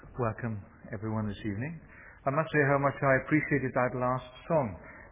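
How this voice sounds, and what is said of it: Welsh accent. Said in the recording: “he originally comes from Wales. That will give you a clue as to his accent”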